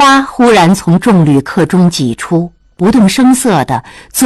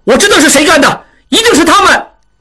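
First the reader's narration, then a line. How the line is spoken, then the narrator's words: Shouting while pushing through. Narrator (Chinese): 小栓挤不过去喊道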